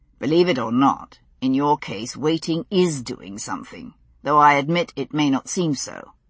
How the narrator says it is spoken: he answered dryly

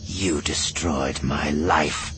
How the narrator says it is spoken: she snarled

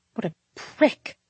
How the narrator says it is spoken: I hissed

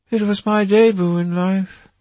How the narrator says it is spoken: she sighed

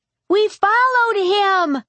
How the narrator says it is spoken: Ella yelled

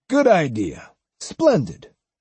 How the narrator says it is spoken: enthusiastically exclaimed

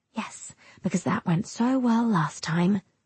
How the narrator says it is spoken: I whisper

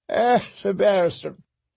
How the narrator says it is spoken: Hisdar yawned again

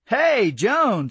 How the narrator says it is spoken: I exclaimed

